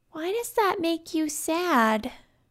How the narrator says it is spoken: asked in her small voice

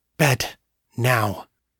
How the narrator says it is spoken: she put her mouth to his ear and hissed

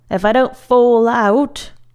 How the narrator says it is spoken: Sho said loudly

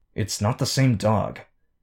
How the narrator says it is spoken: Rachel hissed the words

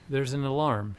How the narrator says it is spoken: she said

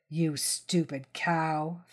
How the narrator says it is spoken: Phil sneered

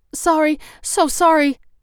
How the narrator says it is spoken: she called out to the clerk

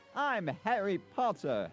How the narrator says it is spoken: Harry began yelling

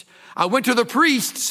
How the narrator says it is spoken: cried

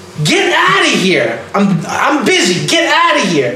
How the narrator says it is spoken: she's screaming

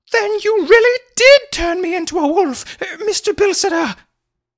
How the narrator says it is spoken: she exclaimed excitedly

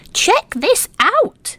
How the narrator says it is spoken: Little Squirrel called excitedly

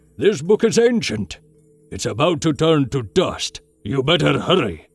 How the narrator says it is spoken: growled, his voice not quite so friendly now

